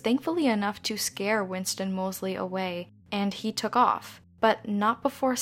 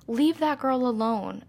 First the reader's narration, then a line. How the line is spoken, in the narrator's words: Richard Moser, a neighbor in the Kew Gardens area, shouted outside his apartment window